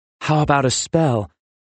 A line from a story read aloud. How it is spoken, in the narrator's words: Ozzy begged the wizard